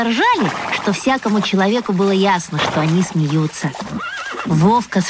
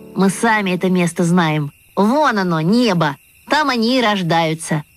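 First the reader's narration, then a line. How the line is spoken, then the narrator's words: Laughing, several voices. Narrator (Russian): Васи засмеялись и сказали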